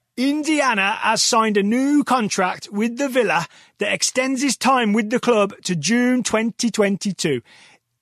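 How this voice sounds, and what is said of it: Thick exaggerated Birmingham accent. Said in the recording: “read out the scouting report in the thickest Midlands accent I can manage ... I never lay it on thick ... I'm going to lay on the Birmingham accent”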